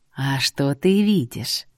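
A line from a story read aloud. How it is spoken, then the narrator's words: Soft voice. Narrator (Russian): мягко прозвучало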